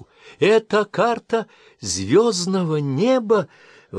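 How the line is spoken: Exclaiming. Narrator (Russian): воскликнула она

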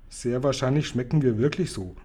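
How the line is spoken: Plain. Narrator (German): sagte Sophiechen

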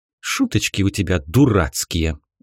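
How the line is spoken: Angry young woman's retort. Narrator (Russian): зло бросила девушка

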